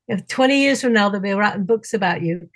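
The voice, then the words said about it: Poor put-on northern English accent. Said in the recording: “he's from up north ... Sorry, terrible accent.”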